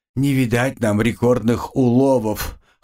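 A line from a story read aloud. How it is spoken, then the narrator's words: Chuckle. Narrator (Russian): хохотнул Димон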